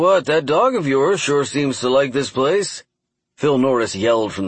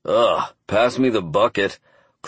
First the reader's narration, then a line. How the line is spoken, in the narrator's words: Clark groaned with a mocking grin